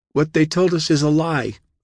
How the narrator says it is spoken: she cried

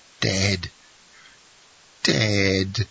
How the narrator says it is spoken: groaned forth Villefort in a paroxysm of grief which was the more terrible from the novelty of the sensation in the iron heart of that man

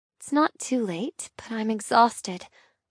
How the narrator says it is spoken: I murmur

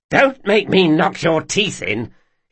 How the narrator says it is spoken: his guardswoman growled down at him

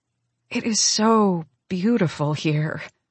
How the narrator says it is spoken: say on a contented sigh

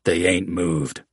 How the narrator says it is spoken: Slim Shanks declared, voice low and raspy

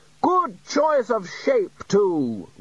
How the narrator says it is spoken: Ridcully continued loudly

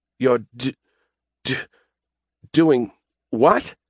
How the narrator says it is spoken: Adam sputtered

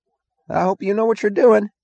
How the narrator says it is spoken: he cried, his voice half threat, half plea

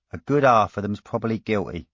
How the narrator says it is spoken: said Fee cheerfully, as if the idea amused her

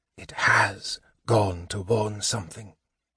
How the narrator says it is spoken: Raistlin whispered

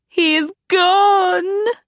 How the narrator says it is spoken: Agatha wailed

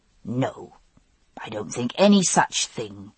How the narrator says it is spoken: he said firmly

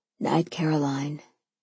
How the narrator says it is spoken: he said softly

